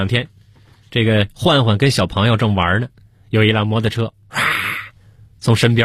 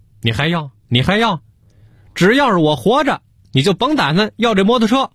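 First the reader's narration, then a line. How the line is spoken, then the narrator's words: Exasperated agitated shouting. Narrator (Chinese): 给小何嚷嚷急了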